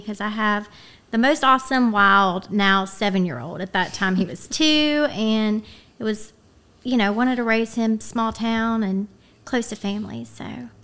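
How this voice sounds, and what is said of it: West Virginia country accent. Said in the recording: “I love your little accent. ... It's very West Virginia. ... It's like the sweetest little country accent.”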